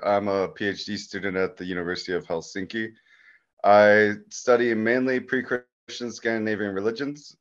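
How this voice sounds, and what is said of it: North American accent. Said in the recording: “I'm sensing a North American accent here.”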